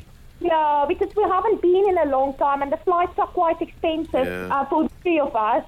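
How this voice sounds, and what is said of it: South African accent. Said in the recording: “that's where we recognise the accent from”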